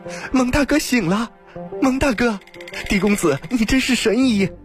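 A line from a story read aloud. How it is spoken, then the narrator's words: Joyful cry. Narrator (Chinese): 青鸾顿时大喜，叫道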